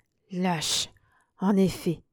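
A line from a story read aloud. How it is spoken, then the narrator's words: Murmured. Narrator (French): murmura Manourov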